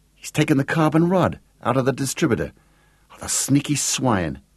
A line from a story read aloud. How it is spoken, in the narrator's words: she exclaimed